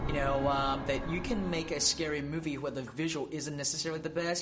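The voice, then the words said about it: Australian accent. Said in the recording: “I love his little Australian accent.”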